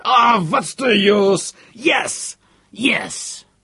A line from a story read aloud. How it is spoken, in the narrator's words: Ninheimer shouted